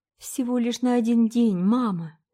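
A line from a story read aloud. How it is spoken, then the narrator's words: Holding back sobs. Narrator (Russian): сказала Полина, подавляя рыдания и силясь улыбнуться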